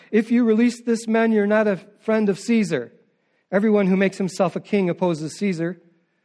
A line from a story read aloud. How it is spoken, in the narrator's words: the Jews cried out